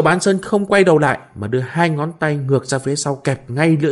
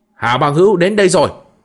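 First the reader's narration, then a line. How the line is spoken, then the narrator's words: Shouted announcement. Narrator (Vietnamese): lại nghe tiếng người quát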